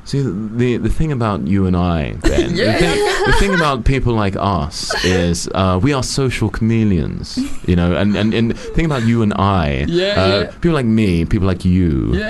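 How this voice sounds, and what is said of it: Impression of an interviewee's voice. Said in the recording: “Good impression.”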